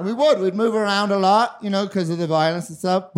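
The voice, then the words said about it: Mixed Australian and Northern Irish accent. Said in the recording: “this really dumb fucking accent that I have ... We're both born in Australia, moved to Northern Ireland.”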